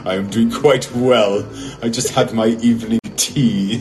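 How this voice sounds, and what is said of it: Bad put-on British accent. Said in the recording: “We're the worst. Welcome to the bad British accent hour.”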